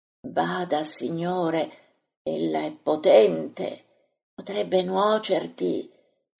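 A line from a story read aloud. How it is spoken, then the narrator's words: Soft whisper. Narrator (Italian): sussurra Cusa sottovoce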